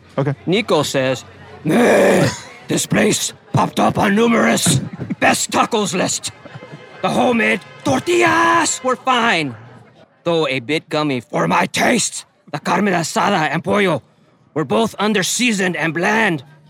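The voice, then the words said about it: Death metal singer growling voice. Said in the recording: “Bad Reviews Read in a Funny Voice ... my voice is, there's a band called Brujeria, and there's a guy, a death metal band, the guy just like”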